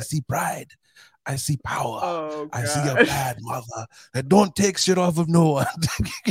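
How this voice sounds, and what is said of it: Bad put-on Jamaican accent. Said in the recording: “The worst Jamaican ass accent ever... shout out to Cool Runnings”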